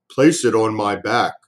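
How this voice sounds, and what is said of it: Deep voice of the great turtle. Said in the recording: “said a deep voice. It was the great turtle”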